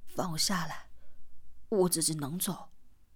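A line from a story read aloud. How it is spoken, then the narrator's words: Panting. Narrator (Chinese): 四娃在他的背上喘息道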